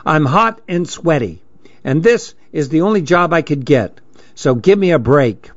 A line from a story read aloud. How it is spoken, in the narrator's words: she said in an irritated tone